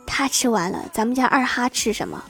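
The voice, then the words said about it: Quiet, hushed aside. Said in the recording (Chinese): “叔叔小声地说”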